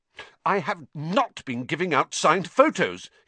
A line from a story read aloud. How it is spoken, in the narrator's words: he said hotly